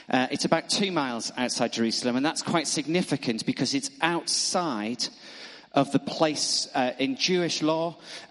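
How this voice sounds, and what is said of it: Northern accent. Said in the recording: “it's difficult to say that word in a northern accent.”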